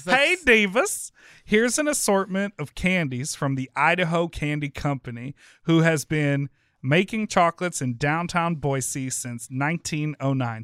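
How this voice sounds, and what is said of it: Dramatic reading voice. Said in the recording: “can you do a dramatic reading? ... I am. Didn't you like my dramatic voice?”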